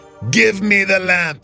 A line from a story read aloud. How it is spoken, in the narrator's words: the wolf growled